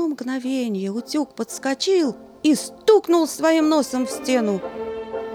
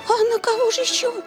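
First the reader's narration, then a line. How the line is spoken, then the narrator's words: Astonished babble. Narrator (Russian): пролепетала бедняжка в крайнем изумлении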